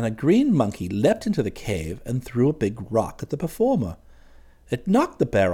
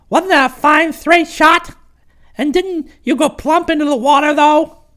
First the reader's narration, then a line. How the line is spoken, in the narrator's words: He shrieked with laughter